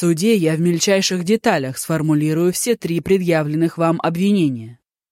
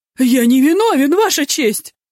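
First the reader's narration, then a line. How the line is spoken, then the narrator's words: Shrieked. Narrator (Russian): взвизгнул Ку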